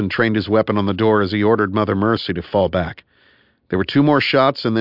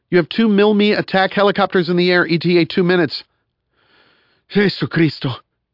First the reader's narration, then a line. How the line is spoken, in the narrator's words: gasped Jackpot